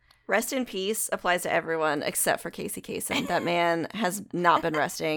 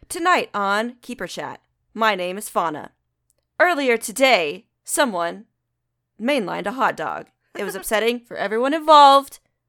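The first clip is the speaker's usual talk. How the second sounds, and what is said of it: Newscaster radio voice. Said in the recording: “do a radio voice or the newscaster voice? You know how they do that?”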